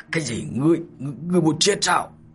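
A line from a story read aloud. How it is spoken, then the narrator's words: Furious murderous voice. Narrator (Vietnamese): Tống Khuyết đại nộ, sát ý lập tức bùng nổ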